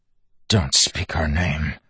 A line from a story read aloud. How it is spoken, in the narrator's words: Wax hissed